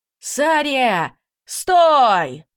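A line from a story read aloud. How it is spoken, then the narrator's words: Male shout, slightly fearful. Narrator (Russian): прокричал мужчина, с легкой опаской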